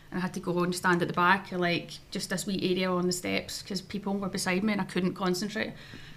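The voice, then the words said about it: Glasgow Scottish accent. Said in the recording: “as a Glasgow accent, being born in Scotland”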